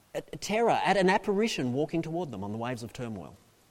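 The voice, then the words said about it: Speaker's own noticeable accent. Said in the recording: “I can never say it properly... Forgive me for this accent.”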